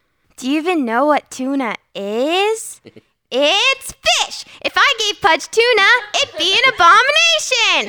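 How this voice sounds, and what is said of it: High-pitched little kid character voice. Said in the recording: “really good voice actress ... really high voice ... she plays like a really good, like ... Lilo. ... Little kid.”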